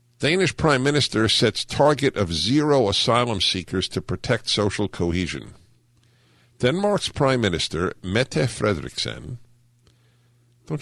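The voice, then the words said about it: Hungarian-accented English. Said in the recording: “I said it with a Hungarian accent”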